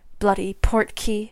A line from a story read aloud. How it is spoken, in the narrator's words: snapped